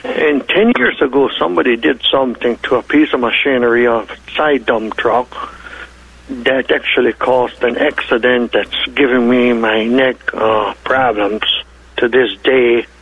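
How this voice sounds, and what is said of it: German Russian Ukrainian Hutterite accent. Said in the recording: “due to my German, Russian, Ukraine, and Hutterish accent, you might have a problem understanding me.”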